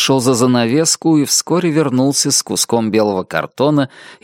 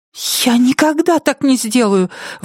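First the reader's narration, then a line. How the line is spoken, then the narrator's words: Cry out. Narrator (Russian): вскрикнула Нетти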